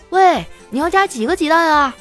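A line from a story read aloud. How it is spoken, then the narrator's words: Answering from nearby. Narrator (Chinese): 丸子啊就在不远处回答说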